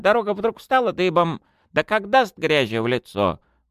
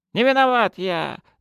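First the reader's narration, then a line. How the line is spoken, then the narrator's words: Whined. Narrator (Russian): заскулил представитель овощной династии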